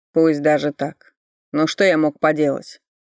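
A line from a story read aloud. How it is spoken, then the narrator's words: Bitter snort. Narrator (Russian): Горько хмыкнул Ричард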